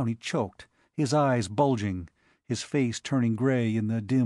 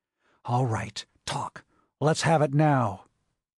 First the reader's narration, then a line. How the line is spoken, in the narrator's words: his voice a vicious whisper